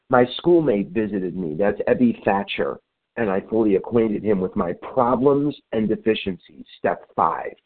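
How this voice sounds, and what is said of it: Sick, hoarse-sounding voice. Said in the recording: “Sorry about my voice. ... I've got bronchitis”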